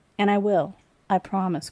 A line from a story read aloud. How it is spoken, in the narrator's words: Corin replied